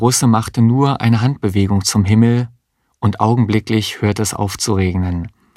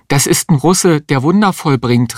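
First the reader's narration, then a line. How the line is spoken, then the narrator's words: Calling out. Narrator (German): rief die Existenzialistin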